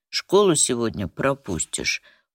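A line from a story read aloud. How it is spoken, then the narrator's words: Mother's weary conclusion. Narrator (Russian): устало заключила мать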